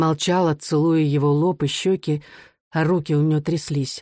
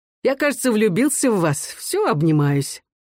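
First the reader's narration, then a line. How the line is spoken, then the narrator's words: Laughing while speaking. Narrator (Russian): засмеялся, говоря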